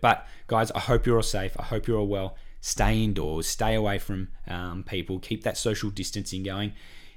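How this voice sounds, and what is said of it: Croaky, hoarse voice. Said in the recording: “I've just had this really cough... probably laryngitis... My voice has gone a bit uh, haywire... My voice is still a bit croaky though, so and I'm still coughing a little bit.”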